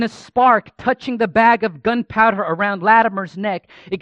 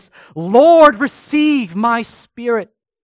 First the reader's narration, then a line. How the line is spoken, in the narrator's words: as the flames rose and began to incinerate Ridley, he cried out in a loud voice